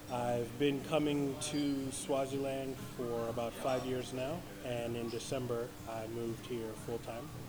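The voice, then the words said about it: American accent. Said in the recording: “I'm an American, if you couldn't tell from my accent.”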